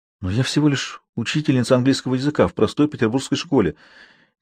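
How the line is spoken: Quiet. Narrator (Russian): тихо сказала Самсуд

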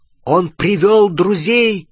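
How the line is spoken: Shout. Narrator (Russian): крикнул Гарри остальным

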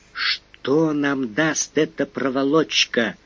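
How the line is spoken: Undertone question. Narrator (Russian): вполголоса спросил Фондорин

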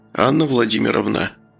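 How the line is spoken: Menacing whisper. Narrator (Russian): грозно прошептал он

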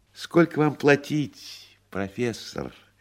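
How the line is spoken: Tender trembling voice. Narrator (Russian): нежным и дрожащим голосом спросил буфетчик

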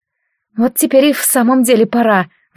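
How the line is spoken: Sighing. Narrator (Russian): вздохнула Леовара

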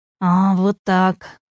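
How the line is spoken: Groaning. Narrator (Russian): застонал

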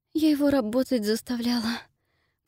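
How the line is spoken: Embarrassed mumble. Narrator (Russian): пробормотала смущенно

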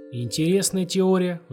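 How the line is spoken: Sighing. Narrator (Russian): вздохнул капитан

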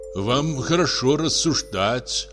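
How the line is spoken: Envious sigh. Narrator (Russian): вздохнул следователь, с завистью

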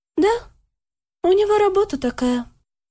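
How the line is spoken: Calm reply. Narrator (Russian): спокойно ответила Лика

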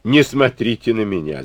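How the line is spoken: Laughing. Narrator (Russian): засмеялся Некрасов

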